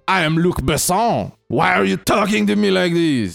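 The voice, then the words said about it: Put-on French accent, slightly Québécois. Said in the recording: “That's my French accent ... That's pretty good. Yeah. It's not bad. ... A bit Quebec.”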